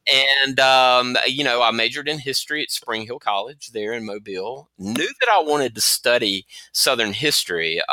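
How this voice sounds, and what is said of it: Southern US Alabama accent. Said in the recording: “I'm originally from Mobile, Alabama. I know the accent probably gives that away.”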